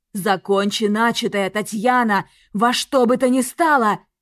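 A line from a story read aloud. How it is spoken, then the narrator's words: Barked command. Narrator (Russian): рявкнул Влад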